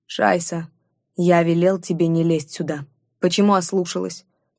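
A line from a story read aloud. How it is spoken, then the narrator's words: Man growling up close. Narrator (Russian): прорычал мужчина мне в лицо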